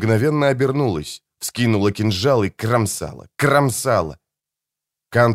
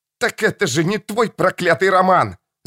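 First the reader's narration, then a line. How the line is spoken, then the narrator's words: Woman shouting. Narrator (Russian): закричала она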